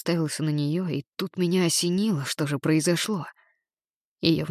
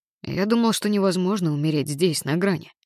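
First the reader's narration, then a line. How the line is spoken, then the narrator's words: Plain. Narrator (Russian): сказал я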